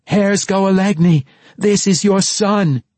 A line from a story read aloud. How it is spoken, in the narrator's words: she screamed